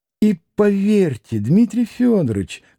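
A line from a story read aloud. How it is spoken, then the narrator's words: Tenderly joyful voice. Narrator (Russian): каким-то умиленно-радостным голоском подхватил Николай Парфенович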